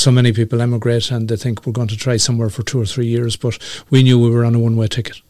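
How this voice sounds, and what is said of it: Irish accent. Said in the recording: “you've kept your Irish accent, by the way. You don't sound very Canadian”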